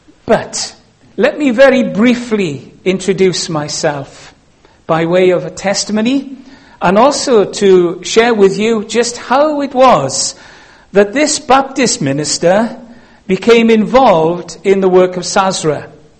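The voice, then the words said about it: Welsh accent. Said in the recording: “I'm Welsh, and that's because of my accent.”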